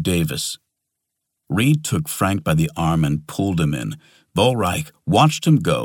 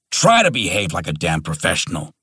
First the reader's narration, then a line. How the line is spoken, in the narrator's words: snarled Davis